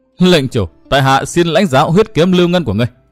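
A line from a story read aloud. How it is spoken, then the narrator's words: Laughing uncontrollably. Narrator (Vietnamese): Hắn không nín được đã bật cười nói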